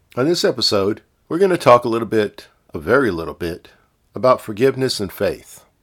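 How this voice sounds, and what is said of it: Congested voice from a head cold. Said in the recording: “Excuse my voice, I've got a little bit of a head cold or something going on, so it may sound a little weird”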